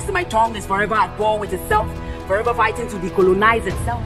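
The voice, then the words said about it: Non-native English accent. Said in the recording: “Lost in this alien fluency. See, this accent is how I find my way home.”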